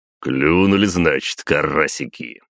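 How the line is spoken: Short laugh. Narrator (Russian): хохотнул глава моей гвардии

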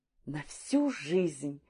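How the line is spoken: Excited repeating together. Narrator (Russian): взволнованно повторили

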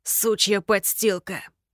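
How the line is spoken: Hissed. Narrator (Russian): прошипел

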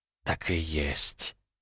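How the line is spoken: Soft rustling whisper. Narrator (Russian): прошелестел тихий шепот

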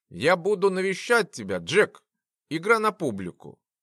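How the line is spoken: Falsely cheerful, kindly voice. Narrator (Russian): изображающий добренького дядюшку ученый сказал веселым голосом

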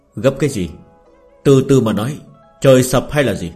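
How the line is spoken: Cold speech. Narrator (Vietnamese): Thiệu Bình Ba lạnh lùng nói

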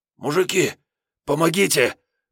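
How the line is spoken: Hoarse panting. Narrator (Russian): прохрипел он, отдуваясь

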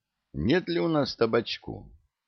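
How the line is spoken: Guilty-voiced question. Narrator (Russian): танкист виноватым голосом спросил

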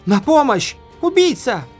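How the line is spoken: Screaming. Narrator (Russian): заорала она

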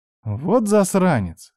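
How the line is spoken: Wry snort. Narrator (Russian): хмыкнула я

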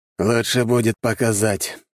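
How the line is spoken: Heavy sigh. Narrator (Russian): тяжело вздохнул лев

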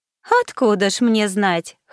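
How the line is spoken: Chuckling. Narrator (Russian): хохотнул он

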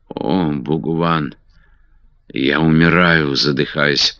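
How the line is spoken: Whisper. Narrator (Russian): прошептала красавица

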